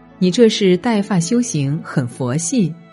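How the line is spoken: Laughing. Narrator (Chinese): 他笑着说

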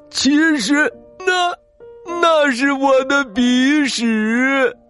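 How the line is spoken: Crying. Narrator (Chinese): 毛渣渣哭了起来

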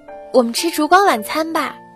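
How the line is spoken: Cheerful shout. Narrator (Chinese): 他 欢叫着说

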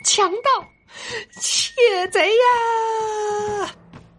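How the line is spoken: Shrill squeak. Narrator (Chinese): 老鼠尖叫道

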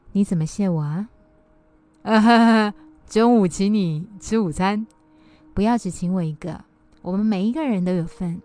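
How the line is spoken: Light laughing tone. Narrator (Chinese): 珍轻轻一笑，对那位工程师说

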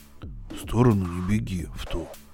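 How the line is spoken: Whisper. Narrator (Russian): прошептал Робби

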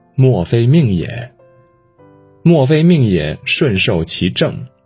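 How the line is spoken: Sighing, lamenting. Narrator (Chinese): 他感叹道

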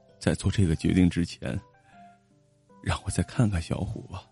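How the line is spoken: Choked with tears. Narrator (Chinese): 老宗哽咽着说

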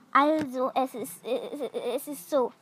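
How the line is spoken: Stammering. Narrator (German): stotterte er

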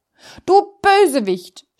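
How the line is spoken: Tailor shouting. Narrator (German): schrie der Schneider

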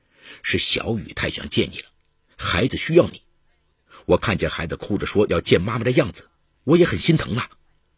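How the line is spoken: Suppressed anger. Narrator (Chinese): 王明义强忍心头的怒火，对前妻解释

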